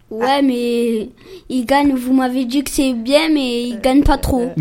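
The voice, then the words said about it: Marseille southern French accent. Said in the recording (French): “C'est un Marseillais ... est-ce que tu as un peu l'accent ? ... il a l'accent”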